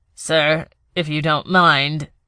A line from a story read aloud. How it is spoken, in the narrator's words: Ito said, his voice strained